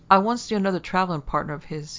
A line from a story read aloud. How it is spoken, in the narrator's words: he began quickly